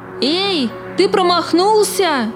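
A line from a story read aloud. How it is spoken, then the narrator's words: Shouting. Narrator (Russian): прокричал голубок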